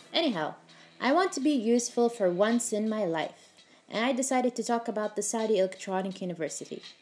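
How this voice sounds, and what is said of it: Put-on British accent. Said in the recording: “I don't know why I have to talk in British accent whenever I want to sound smart and educated. And I know it's so fake”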